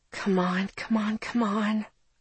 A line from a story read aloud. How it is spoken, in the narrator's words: I muttered